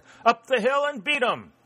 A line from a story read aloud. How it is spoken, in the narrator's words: Uttering a deep-throated roar, the Winchesters